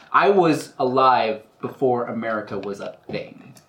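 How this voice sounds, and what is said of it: Put-on American accent. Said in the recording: “re-glamour my accent... Perfect American accent.”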